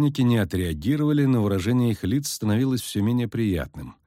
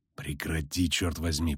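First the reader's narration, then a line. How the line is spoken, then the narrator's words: Hissing. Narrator (Russian): прошипел Геральт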